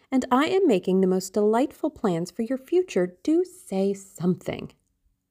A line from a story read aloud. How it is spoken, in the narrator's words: cried Sybil